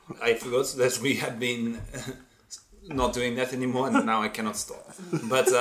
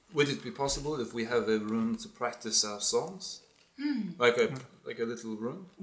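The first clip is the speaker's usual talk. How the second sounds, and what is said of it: Put-on accent, possibly French. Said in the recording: “Is that France? France? ... I'm stuck in the accent. ... You're doing the accent again”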